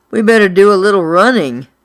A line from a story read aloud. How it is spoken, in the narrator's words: Buddy moaned